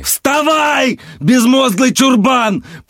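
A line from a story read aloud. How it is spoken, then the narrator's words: Roaring. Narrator (Russian): проревел Гаррис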